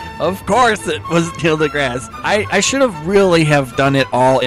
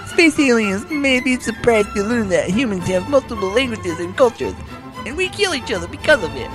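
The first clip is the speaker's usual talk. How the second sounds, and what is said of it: Imitates another person's voice. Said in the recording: “in my Tyson voice”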